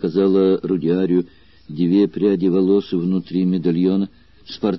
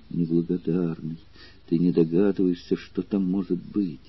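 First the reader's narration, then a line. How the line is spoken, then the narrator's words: Tender reproach through tears. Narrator (Russian): улыбнувшись сквозь слезы, произнесла с нежным укором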